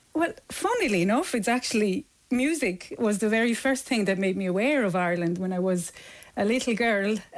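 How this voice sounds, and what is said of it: Swiss accent in English. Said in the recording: “that's not originally a Galway accent at all ... It's a Swiss accent ... It is a Swiss accent”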